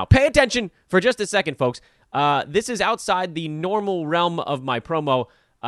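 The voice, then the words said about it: Yelling into the microphone. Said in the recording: “I'm yelling into the microphone now.”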